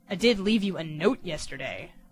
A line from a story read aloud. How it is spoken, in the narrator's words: the Beast said, a little testily